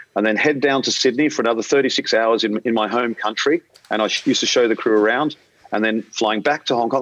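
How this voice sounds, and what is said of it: Australian accent. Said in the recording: “being an Australian, if you haven't picked up my accent yet”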